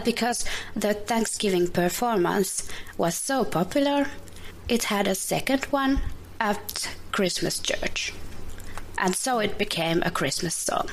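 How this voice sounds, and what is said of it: Finnish-accented English. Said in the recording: “from Finland. She's just learning English on her own ... I love her accent”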